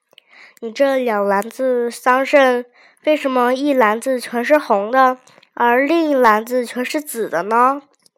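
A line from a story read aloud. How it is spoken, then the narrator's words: Plain. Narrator (Chinese): 蔡顺回答道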